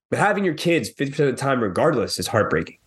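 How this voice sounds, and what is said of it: Choked-up, emotional voice. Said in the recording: “I'm getting all choked up. ... I'm an emotional man.”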